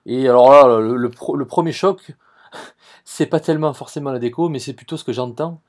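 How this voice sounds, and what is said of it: Marseille French accent. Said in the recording (French): “je vous ai entendu parler avec l'accent, je vois que vous êtes de Marseille”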